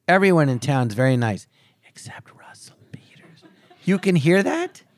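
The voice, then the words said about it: Whispering. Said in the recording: “and I'm whispering.”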